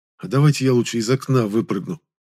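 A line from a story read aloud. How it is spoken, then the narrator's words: Pleading. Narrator (Russian): сказал я умоляющим голосом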